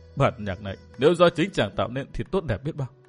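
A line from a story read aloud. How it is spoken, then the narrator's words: Sobbing tearful murmur. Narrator (Vietnamese): Thôi Linh Chi lại nức nở, nước mắt tuôn trào như mưa, lẩm bẩm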